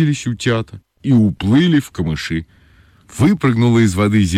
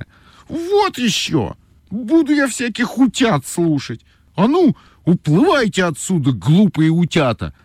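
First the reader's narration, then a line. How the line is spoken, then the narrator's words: Shout. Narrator (Russian): закричала Ойка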